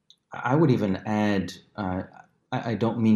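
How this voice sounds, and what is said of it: Usual voice. Nothing is said of it.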